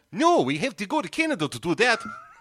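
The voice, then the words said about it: Fargo-style Upper Midwest accent. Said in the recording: “I don't know what that accent is ... You've been watching Fargo.”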